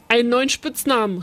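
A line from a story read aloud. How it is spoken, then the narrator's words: Calling out. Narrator (German): rief Uli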